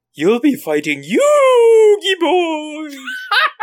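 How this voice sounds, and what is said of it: Eerie ghost-like voice. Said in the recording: “did he sound like a ghost?”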